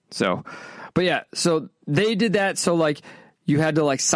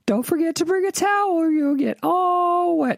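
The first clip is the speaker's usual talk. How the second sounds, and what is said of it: Impression of the character Tally. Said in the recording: “I do think Tally's a hilarious character, though... I have no idea if that's a good impersonation... I think it's a good impersonation, but probably is terrible”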